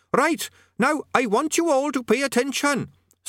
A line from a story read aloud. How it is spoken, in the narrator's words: squeaked Quez Overquattle, cupping its tiny hands around its main mouth in an effort to be heard